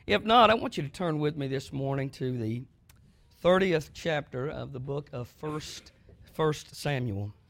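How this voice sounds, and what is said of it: Sick, strained voice. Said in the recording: “I'm a little bit under the weather, so my voice may go in and out, and I may cough”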